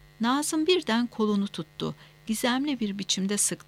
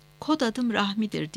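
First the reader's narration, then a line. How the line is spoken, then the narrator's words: Whispered. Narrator (Turkish): diye fısıldadı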